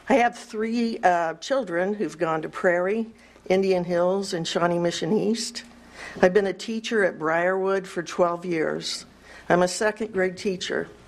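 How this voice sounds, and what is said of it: Shaky nervous voice. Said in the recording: “It's a little intimidating, so my voice gets shaky.”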